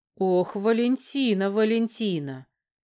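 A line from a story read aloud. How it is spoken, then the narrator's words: Drawn-out. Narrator (Russian): протянул Казаков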